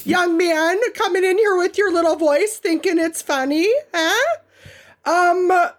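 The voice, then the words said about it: Put-on Minnesota accent. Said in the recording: “I really kind of want to just hit you with some Minnesota goodness in response”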